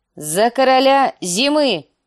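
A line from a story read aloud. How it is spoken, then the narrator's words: Shout. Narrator (Russian): крикнула она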